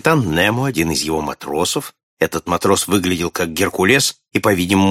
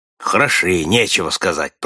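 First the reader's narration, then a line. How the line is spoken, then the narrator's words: Grumbling. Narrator (Russian): проворчал Нед Ленд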